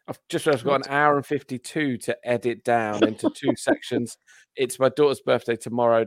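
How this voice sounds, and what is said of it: Flat monotone delivery. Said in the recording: “in a monotone voice. ... And at a very sore throat.”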